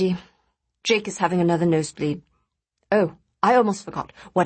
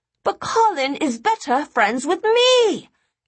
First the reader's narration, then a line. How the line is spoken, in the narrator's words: Eddie screamed, the pressure building in his head